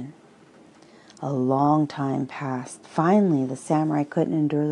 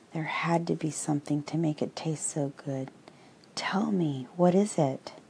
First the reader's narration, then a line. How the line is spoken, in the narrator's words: The Zen master softly spoke